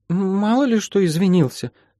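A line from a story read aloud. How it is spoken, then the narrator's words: Mumbling. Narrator (Russian): промямлила Кейти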